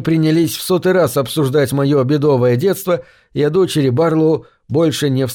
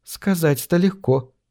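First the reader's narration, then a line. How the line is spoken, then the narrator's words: Mother sighing. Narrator (Russian): вздохнула мама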